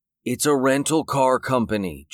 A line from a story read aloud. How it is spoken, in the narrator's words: Jake whined